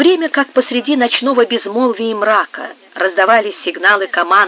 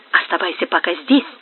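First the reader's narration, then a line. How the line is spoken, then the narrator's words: Whisper. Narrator (Russian): шепнул он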